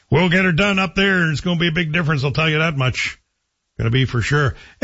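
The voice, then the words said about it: Put-on local small-town accent. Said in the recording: “I'm doing my Manitic accent because that's how I remember it being told to me”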